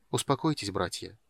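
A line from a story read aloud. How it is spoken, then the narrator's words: Quiet. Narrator (Russian): тихо сказал Полин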